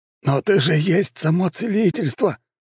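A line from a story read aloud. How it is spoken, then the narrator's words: Exclaiming. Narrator (Russian): воскликнул Фадосиус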